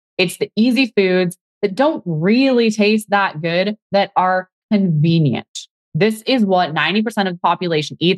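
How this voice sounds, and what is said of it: Unexplained unusual accent. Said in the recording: “I don't know what accent this is or where it's coming from ... I don't know what's wrong with my voice today”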